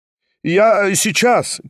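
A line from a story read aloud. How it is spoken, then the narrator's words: Shout from another room. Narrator (Russian): крикнул из другой комнаты Степан Трофимович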